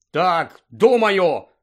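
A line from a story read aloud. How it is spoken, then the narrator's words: Angry. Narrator (Ukrainian): сердито сказав Рон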